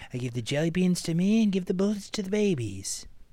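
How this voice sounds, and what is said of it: Imitates another person's voice. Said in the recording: “That sounds like an AI generated Reagan voice.”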